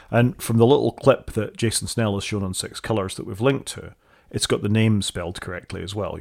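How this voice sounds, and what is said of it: Scottish accent. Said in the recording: “really don't get on well with my accent ... Scottish people are clearly struggling”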